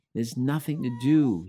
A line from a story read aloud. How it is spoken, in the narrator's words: cried all night through